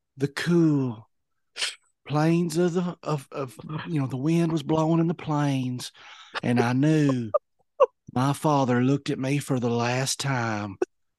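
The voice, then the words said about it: Imitates a character's narrating voice. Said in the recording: “I was like your Elsa in impression.”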